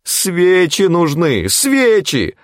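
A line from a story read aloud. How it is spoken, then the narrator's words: Anguished shout. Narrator (Russian): страдальчески закричал Тимофеев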